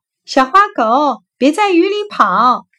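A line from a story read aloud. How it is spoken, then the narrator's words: Anxious cry. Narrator (Chinese): 小青蛙着急的叫道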